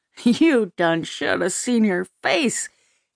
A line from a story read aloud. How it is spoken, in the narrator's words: cackled